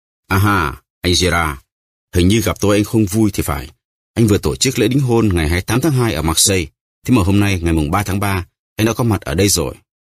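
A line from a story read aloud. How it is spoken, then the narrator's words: Smiling. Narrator (Vietnamese): Ông ta mỉm cười bảo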